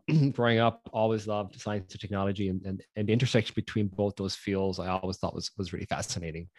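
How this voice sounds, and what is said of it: Irish accent. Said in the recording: “for those of you who can't tell by my accent, I grew up in Ireland”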